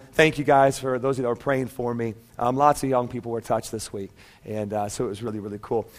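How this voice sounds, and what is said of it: Tired-sounding voice. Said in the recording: “I sound a little tired, it's actually my voice that sounds tired and not me ... my voice is a little bit tired”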